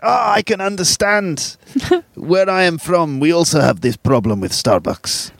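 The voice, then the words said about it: Put-on Russian accent. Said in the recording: “Russian accent... Sounded very”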